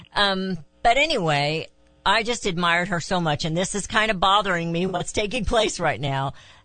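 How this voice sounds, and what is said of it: Hickish rural American accent. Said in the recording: “I do have a hickish accent”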